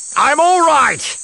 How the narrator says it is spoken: Barris shouted back

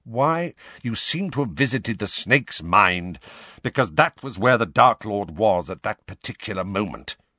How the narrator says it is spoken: snarled Snape

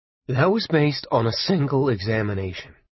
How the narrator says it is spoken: Arnie said, calmly

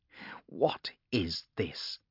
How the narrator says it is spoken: growled Agata

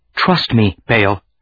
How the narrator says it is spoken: she said, her voice unsteady

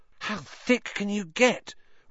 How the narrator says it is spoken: Ron whispered ecstatically

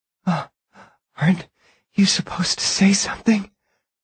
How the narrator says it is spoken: Eileen whispered, breathing raggedly around the words

